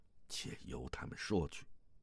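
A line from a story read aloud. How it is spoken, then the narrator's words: Low voice. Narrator (Chinese): 萧峰摇了摇头，低声道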